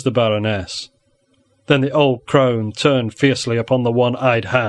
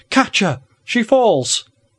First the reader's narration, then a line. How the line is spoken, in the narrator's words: Ursula cried out in a sharp, shrill voice